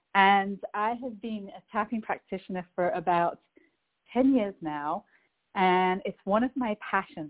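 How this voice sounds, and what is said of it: English accent. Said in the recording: “I'm originally from England, hence the accent”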